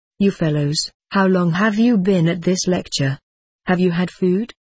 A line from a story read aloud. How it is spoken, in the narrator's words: he asked